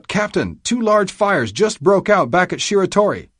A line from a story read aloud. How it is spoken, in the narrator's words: Lookout Parker cried out